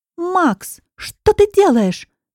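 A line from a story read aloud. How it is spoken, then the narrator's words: Shrill voice. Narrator (Russian): слышу вдруг визгливый голос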